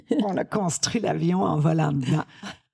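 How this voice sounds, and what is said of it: Put-on Canadian French accent. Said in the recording (French): “cette expression canadienne ... Je peux vous le faire avec l'accent.”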